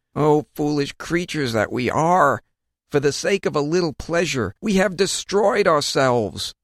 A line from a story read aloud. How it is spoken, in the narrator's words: Just as they were expiring, they exclaimed